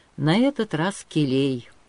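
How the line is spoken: Tired reply. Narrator (Russian): устало отвечал князь

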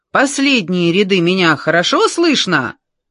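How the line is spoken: Loud question. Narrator (Russian): громко спросил Джордж

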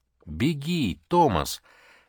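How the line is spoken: Strained cry turning to howl. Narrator (Russian): мог членораздельно выдавить из себя Джим, пока крик не перешел в безумно истошное завывание

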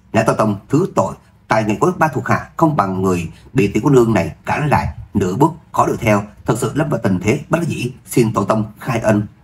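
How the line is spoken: Strained, reluctant speech. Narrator (Vietnamese): Bát Đức Người Vân khẽ cắn môi, nói

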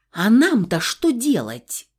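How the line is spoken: Interrupting. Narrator (Russian): прервала я

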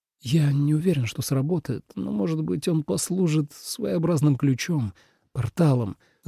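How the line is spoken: Muttering, then quieter. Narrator (Russian): забормотал Тоби и добавил тише

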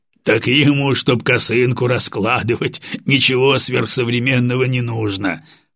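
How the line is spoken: Short laugh. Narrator (Russian): хохотнул очкарик

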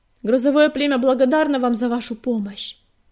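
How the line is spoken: Shouted after departing listeners. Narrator (Russian): крикнул вслед уходящим Огнегрив

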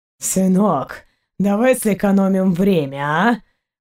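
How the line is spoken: Hoarse voice from above. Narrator (Russian): Хриплый голос Заури раздался над ними

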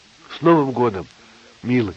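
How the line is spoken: Plain. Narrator (Russian): сказала Ася

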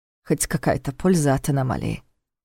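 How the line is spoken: Muttered. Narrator (Russian): пробормотал Войтах

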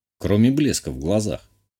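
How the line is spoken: Amused snort. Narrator (Russian): хмыкнул я

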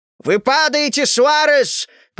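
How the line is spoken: Panicked yell over speaker. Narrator (Russian): панически завопил динамик

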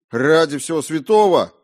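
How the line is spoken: Exclamation. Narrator (Russian): воскликнул он

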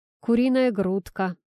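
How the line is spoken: Gloomy reply. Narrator (Russian): мрачно ответил Игорь

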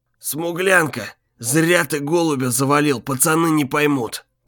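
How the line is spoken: Wounded wheezing. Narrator (Russian): просипел раненый бандит

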